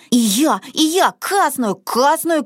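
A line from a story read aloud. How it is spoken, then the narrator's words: Small child shouting. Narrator (Russian): кричал малышка Мортен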